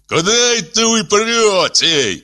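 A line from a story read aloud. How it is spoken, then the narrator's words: Shouting. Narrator (Russian): кричал он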